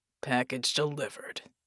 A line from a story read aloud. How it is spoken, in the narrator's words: Jack grunted